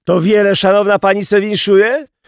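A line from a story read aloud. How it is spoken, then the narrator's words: Coachman shouting. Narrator (Polish): krzyczał woźnica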